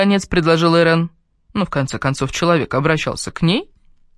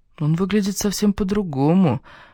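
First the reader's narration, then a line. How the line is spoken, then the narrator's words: Muttering. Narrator (Russian): пробормотала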